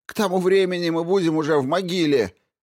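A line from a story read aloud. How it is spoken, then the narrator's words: Man shouting. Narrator (Russian): выкрикнул какой-то мужчина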